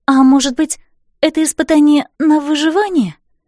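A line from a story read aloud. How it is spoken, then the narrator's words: Timid woman's voice. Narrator (Russian): робко произнесла рыжеволосая красавица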